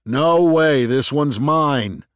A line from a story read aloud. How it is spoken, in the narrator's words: he shouted